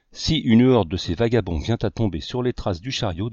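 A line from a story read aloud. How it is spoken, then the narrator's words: Plain. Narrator (French): dit l'artiste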